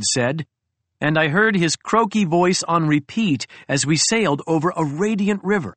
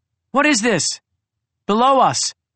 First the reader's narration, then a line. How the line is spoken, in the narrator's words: I called out to Cry